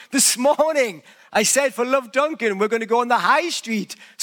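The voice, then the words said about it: Non-Canadian, British-sounding accent. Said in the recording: “my accent”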